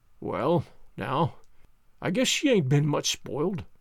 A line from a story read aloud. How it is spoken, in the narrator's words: he muttered proudly